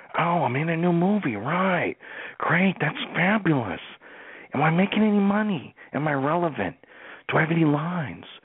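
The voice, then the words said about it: Owen Wilson impression. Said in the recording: “Owen Wilson. Let's do some Owen Wilson.”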